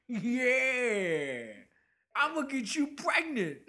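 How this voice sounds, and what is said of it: Imitates another person's voice. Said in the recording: “This is my Tracy Morgan impression... It sounds good.”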